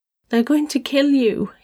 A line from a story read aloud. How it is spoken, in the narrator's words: he sobbed